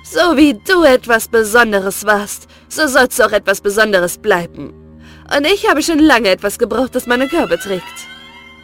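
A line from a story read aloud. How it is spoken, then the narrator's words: Mocking scornful. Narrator (German): da hatte sie höhnisch zu ihm gesagt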